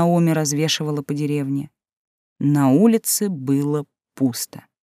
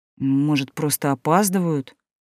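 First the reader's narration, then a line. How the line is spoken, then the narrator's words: Uncertain suggestion. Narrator (Russian): неуверенно предположил Адам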